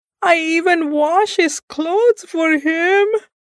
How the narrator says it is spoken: I wailed

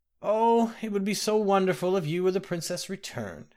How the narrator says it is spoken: the old woman gasped

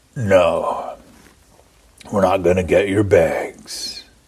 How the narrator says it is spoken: Pinkerton said in a voice that was so deep and gruff that it was almost a croak

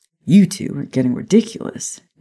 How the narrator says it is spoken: James said, laughing

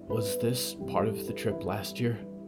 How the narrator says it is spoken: Clara whispered

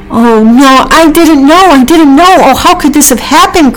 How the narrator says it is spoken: cried Pecky

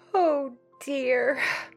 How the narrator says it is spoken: sighed Meg

